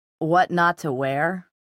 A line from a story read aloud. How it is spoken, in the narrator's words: came a familiar drawling voice